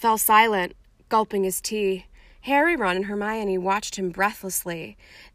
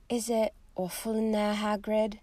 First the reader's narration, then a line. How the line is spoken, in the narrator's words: After a pause, Hermione said timidly